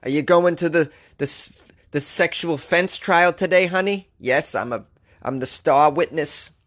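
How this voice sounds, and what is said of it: Poor attempt at Scottish accent. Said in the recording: “That wasn't a Scottish accent. I can't do one.”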